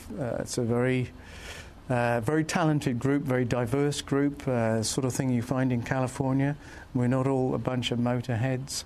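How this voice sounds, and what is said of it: British accent. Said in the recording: “your accent to me doesn't sound California ... I'm a long way from the UK, which is where I came from.”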